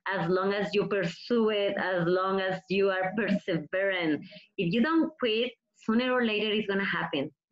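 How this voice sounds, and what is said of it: Mexican-accented English. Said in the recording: “I have my accent. I'm from Mexico.”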